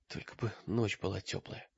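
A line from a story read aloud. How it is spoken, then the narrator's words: Whisper. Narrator (Russian): прошептал он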